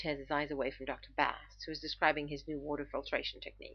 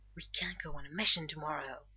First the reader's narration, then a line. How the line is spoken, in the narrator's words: Rodney leans over to John and hisses